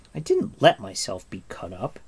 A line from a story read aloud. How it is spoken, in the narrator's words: Terran said angrily